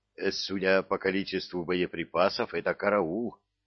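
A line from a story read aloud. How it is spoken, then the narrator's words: Plain. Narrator (Russian): сказал Косарян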